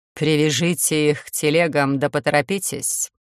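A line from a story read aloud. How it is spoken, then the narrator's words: Cold command. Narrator (Russian): Холодно скомандовала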